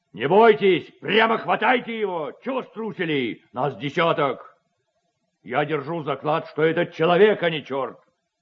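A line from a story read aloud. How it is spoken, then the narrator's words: Headman shouting. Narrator (Russian): Так кричал голова своим сопутникам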